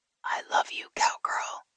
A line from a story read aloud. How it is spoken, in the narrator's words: she whispered